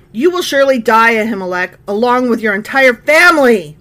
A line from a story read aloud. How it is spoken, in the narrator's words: the king shouted